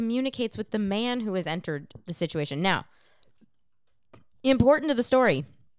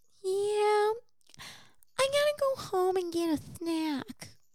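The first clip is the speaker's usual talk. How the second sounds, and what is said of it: Changed tone, speech-impediment-like voice. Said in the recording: “my best impression of this. The tone of her voice changes ... you don't have a speech impediment”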